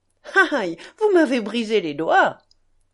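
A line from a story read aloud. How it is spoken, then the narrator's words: Laughing. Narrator (French): dit Kalganov en riant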